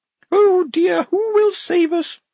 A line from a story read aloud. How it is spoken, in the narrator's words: Blouse quavered